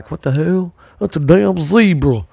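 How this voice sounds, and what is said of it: Poor imitation of Maryland accent. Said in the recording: “I don't know how a Maryland voice is, so sorry if I did a bad impression of a Maryland person.”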